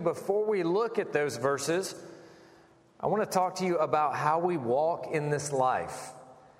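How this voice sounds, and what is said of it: South Carolina country accent. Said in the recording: “I'm from South Carolina. Some of you could probably pick up the accent. And I'm also a country boy... So if you hear some weird accent”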